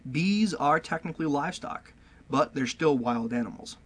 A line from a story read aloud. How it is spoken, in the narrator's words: Sillers says